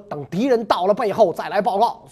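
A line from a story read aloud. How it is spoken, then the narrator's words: Angry shout. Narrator (Chinese): 曹操怒喝说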